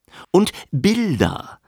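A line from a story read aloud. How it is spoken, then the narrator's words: Plain. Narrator (German): sagte Frechter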